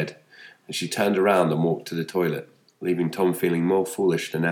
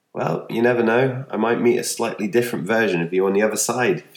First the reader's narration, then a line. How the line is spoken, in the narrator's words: laughed